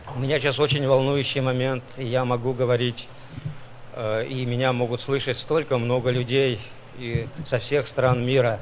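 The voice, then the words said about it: Nervous, trembling voice. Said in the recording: “I'm very nervous to speak right now, and my voice is trembling”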